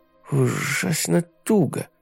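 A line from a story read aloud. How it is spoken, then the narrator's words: Muttered. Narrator (Russian): пробормотал он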